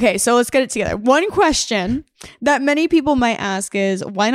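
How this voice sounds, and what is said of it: Usual voice. Nothing is said of it.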